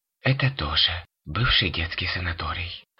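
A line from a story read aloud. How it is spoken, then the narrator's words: Relieved sigh. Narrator (Russian): облегченно вздохнула София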